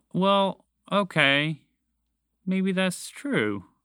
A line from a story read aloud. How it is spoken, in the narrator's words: Montgomery the Moose admitted sadly